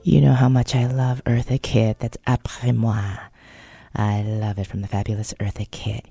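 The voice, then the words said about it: Hoarse, husky voice. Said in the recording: “a little bit of hoarseness ... It just sounds sexy. You know, that sexy hoarseness. That bourbon morning voice.”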